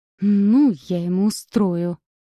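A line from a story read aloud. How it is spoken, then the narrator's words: Hissing. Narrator (Russian): прошипел незнакомец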